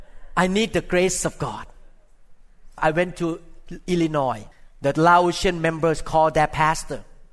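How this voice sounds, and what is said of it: Non-native English accent. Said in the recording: “English is not my first language, my mother tongue language ... my accent”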